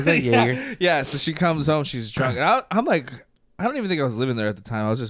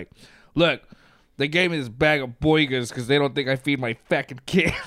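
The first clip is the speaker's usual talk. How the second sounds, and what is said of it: Quoted line in odd put-on accent. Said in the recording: “I don't know why, where this accent came from”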